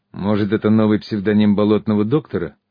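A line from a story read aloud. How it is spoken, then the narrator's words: Skeptical snort. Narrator (Russian): хмыкнул Тополь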